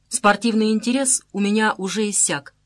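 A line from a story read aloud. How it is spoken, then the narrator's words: Calm reply. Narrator (Russian): спокойно ответил Мухолатов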